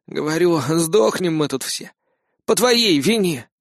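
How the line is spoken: Breathless beaten boy. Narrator (Russian): выдохнул избитый парнишка

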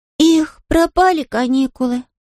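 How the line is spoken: Sighing. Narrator (Russian): вздохнула Бет

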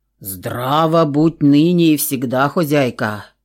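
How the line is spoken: Deep booming dwarf voice. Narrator (Russian): Забасил бородатый карлик

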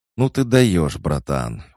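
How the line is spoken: Exclaiming. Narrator (Russian): воскликнул Илюха

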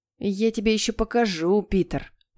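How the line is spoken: Growling. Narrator (Russian): прорычал Генри

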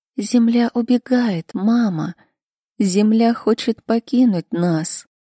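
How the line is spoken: Frightened child whispering. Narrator (Russian): Камалу шептал

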